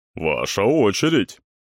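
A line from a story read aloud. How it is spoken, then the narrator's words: Deep bass voice. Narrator (Russian): повторил басом кавалер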